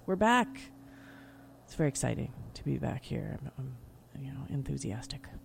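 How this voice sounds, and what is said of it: Whispering. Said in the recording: “Even though I'm whispering.”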